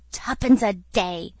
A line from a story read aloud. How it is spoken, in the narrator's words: muttered Moody with a curse